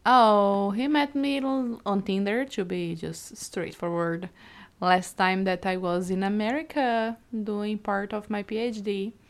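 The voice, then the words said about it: Non-American foreign accent. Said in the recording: “I'm not from America... I think they can guess because of my accent.”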